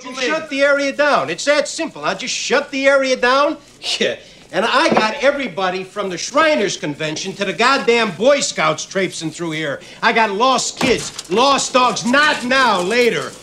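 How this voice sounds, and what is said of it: Chicago accent. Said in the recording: “He is the most Chicago cop I've ever seen ... using his Chicago accent”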